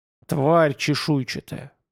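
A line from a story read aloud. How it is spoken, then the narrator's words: Angry growl. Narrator (Russian): прорычал Вем, отчего-то мгновенно заводясь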